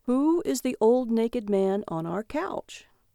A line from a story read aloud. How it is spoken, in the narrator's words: He said calmly